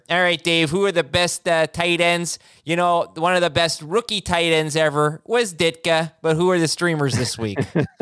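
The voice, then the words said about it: Put-on Chicago accent. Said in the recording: “You could do the Chicago accent ... Chicago thing here”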